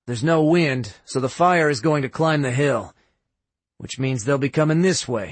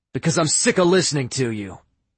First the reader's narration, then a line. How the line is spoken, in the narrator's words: Drake snapped